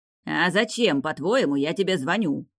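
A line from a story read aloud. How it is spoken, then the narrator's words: Barking snap. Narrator (Russian): рявкнул Фиери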